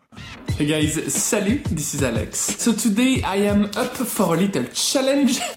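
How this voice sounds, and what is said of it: English with a strong French accent. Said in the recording (French): “son accent ... Difficile de ne pas repérer qu'il est français. Je pense même qu'il en rajoute un peu, son accent”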